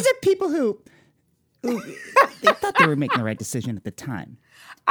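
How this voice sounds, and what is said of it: Imitates another person's voice. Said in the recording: “more Ira Glass voice from you ... good impression ... you just nailed that”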